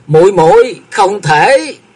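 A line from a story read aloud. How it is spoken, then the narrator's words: Staggering, desperate howl. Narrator (Vietnamese): Bạch Tố Nghi miệng gào lên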